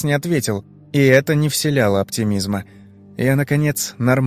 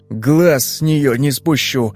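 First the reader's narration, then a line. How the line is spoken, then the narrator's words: Angry promise. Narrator (Russian): зло пообещал он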